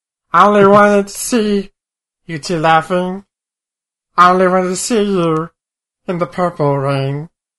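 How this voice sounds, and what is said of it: Cartoon character voice imitating a singer. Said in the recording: “my backup singer is Meatwad doing an R. Kelly impersonation singing Prince”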